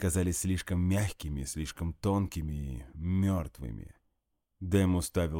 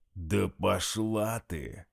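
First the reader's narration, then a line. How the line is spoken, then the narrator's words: Growled. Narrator (Russian): прорычал Дмитрий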